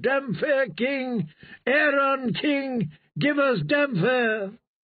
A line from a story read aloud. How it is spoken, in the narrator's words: they cried